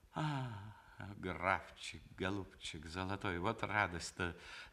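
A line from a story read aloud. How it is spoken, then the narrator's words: Through teeth, cheerful smile. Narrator (Russian): заговорила она сквозь зубы с веселой улыбкой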